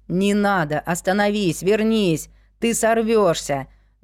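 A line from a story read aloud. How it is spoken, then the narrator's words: Shouting after someone. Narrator (Russian): Вслед ему кричали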